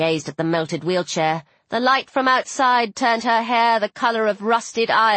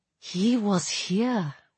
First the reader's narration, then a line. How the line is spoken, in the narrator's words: she murmured